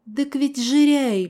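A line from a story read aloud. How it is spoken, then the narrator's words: Pleading old man. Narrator (Russian): взмолился дедок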